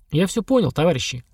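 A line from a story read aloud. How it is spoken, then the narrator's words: Tired. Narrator (Russian): устало сказал я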